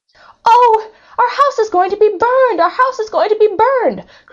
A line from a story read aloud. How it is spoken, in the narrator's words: cried Meg and Peg, clutching their brothers